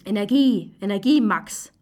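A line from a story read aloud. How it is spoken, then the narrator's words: Self-encouraging call. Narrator (German): ruft sich zu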